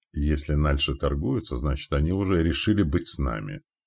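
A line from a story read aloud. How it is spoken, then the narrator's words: Whispered into ear. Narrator (Russian): прошептал на ухо Андрею Яким Тиун Александра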